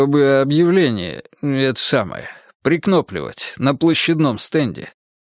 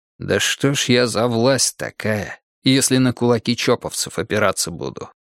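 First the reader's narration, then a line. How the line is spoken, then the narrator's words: Sighing. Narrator (Russian): вздохнул Пересолин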